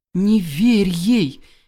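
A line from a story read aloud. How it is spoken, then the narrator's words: Shout through bars. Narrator (Russian): крикнула через решетку Василиса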